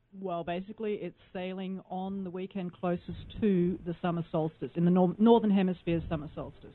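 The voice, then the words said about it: Australian accent. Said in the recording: “from where do you hail with your accent? ... Australia.”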